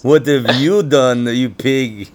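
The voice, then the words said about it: Put-on French-sounding accent. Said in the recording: “All my accents sound French ... It all goes back to French for some reason for me. The only accent I can do.”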